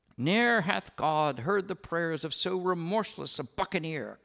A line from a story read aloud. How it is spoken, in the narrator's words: cried Pirate Anne, loudly enough for the barbarous offstage mob to hear her